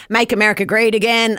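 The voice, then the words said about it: Deliberately bad put-on American accent. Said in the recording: “that's a terrible accent there”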